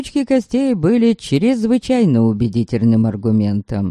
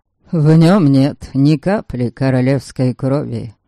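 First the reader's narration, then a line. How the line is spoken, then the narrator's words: Calm. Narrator (Russian): спокойно отвечаю я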